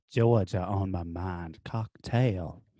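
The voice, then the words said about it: Put-on Southern accent. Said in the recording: “say it with a Southern accent”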